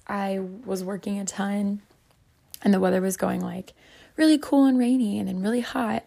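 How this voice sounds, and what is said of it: Hoarse, cracking, nearly lost voice. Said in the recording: “how my voice sounds today. I know it's cracking on like every other word. I lost my voice. ... my voice was so shot”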